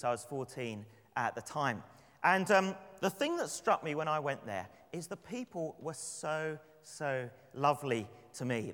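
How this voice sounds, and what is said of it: London English accent. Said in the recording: “my accent ... Gee, we love your accent. Where are you from? ... London. Is that London, England?”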